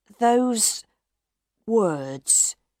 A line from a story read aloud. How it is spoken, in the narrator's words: Monsieur Firmin said slowly